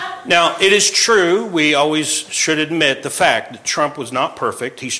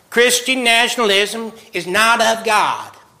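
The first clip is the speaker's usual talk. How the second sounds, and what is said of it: Imitation of Beth Moore. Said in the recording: “That's my best Beth Moore imitation.”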